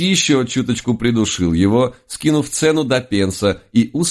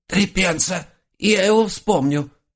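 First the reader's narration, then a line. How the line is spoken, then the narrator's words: Wheezy raccoon. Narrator (Russian): просипел енот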